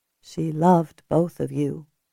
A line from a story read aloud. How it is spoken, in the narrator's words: Julia said softly